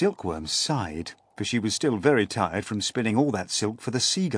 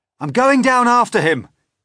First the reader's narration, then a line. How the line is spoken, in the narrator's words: cried James